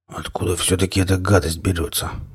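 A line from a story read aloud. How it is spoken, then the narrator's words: Muttering. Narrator (Russian): бормотал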